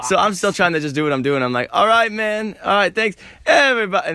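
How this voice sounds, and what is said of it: Hoarse, lost voice. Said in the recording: “I lost my voice. ... I lost my money, my box, and my voice.”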